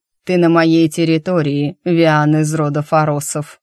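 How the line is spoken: Growled. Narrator (Russian): зарычал тот

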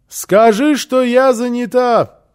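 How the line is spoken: Shouted through closed door. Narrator (Russian): крикнула в ответ Фрёкенбок из-за закрытой двери

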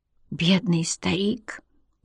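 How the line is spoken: Mutter. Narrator (Russian): пробормотал он

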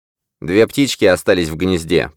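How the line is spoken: Grumbling. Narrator (Russian): проворчал Грир

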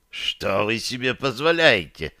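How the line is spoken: Hiss. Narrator (Russian): прошипел он

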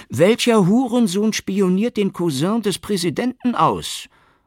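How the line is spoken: Called out. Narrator (German): rief General Imad

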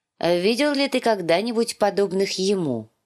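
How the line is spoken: Plain. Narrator (Russian): спросил он

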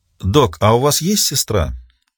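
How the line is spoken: Calm inquiry. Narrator (Russian): спокойно поинтересовалась Риццоли

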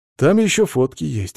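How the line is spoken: Heavy sigh. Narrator (Russian): тяжело вздохнул

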